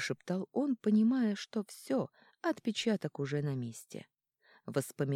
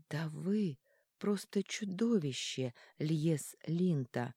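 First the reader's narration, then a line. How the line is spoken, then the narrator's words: Slow, clipped words. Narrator (Russian): медленно, чеканя каждое слово, произнесла она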